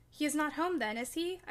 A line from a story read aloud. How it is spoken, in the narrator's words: I panted, quite breathless with quick walking and alarm